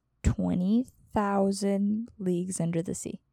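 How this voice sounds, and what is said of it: Slow, deliberate speech. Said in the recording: “said it slowly”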